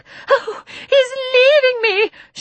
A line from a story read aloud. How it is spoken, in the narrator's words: shrieked Miss Lark